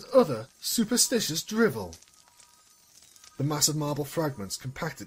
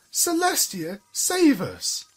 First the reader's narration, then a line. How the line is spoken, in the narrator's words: the older ones cried